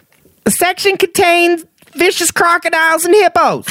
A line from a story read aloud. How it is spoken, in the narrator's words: My wife's friend screams out